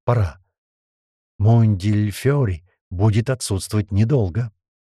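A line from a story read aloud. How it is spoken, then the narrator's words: Loud whisper. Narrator (Russian): Атерпас громко шепнула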